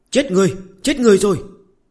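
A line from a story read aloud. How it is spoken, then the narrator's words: Boy shouting loudly. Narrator (Vietnamese): một thằng nhóc gầy như que củi ... hét toáng lên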